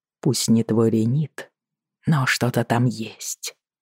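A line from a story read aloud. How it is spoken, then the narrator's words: Whisper. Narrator (Russian): прошептал он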